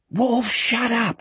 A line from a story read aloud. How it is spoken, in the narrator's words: Jack hissed